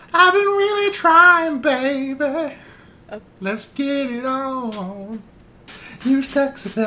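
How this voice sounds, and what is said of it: Imitates another person's voice. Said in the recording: “my Marvin Gaye impression ... That was really good.”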